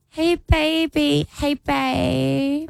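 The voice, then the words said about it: Baby voice. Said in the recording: “using the baby voice.”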